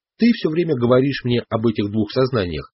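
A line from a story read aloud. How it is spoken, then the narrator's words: Plain. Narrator (Russian): сказал я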